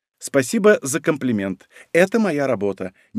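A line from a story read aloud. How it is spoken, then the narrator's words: Cooing. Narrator (Russian): проворковала Маруша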